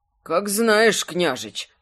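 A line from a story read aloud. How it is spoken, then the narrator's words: Absent-minded mumble. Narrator (Russian): бормотал он, сам не зная что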